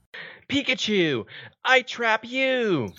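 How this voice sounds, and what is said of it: Imitated cartoon character voice. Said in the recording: “his killer Ash impression ... do your Ash impression”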